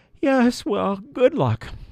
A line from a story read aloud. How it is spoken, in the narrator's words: The elf just yawned and said